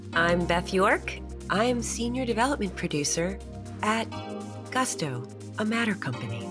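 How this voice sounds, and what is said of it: Polished announcer-style voiceover voice. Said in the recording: “In my voiceover voice. ... You're so good at that.”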